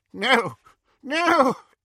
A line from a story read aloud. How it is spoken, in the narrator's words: he choked and retched